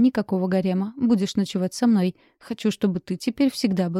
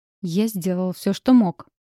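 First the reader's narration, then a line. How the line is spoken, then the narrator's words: Growling. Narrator (Russian): зарычал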